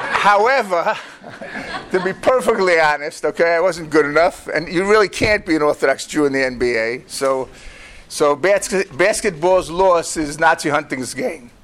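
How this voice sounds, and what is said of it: Brooklyn accent. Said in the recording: “as you can hear from my wonderful Brooklyn accent”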